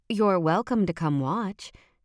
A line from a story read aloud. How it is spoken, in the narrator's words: said